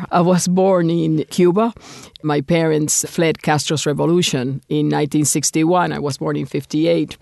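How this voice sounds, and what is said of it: Speaks with a noticeable accent. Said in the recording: “I'm sure that you and your audience are going to notice an accent”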